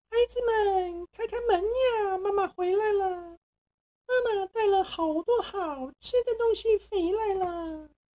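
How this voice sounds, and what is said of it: Thin, high wolf voice imitating mother. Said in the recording (Chinese): “用他细细的声音说 ... 小羊们听到这细细的声音”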